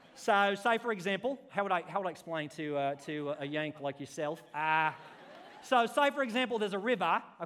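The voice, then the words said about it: Put-on Australian accent. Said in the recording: “That sounds so Australian in my head ... does that sound Australian to you?”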